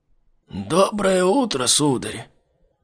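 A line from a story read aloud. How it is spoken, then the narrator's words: Hoarse old man. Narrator (Russian): сипло проговорил старик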